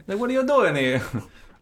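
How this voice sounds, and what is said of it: Bad put-on Italian accent. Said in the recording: “My accents... They're bad... we just lost the Italian”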